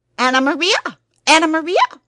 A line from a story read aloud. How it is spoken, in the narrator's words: squeaked the rat